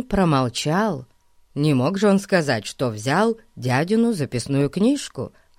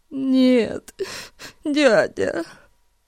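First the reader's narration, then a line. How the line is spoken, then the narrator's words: Sobbing mumble in pain, fear. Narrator (Russian): всхлипывая от боли и страха, пробормотал Эрн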